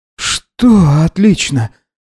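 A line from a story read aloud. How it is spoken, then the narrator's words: Exhausted, surrendering exhale. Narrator (Russian): выдохнул Гидеон, потерявший способность сопротивляться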